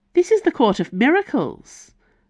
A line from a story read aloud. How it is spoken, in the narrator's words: Valeria said impatiently